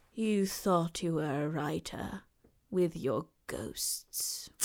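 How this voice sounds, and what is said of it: Imitates a film character's voice. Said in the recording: “Was that a good impression? ... Uncanny, truly.”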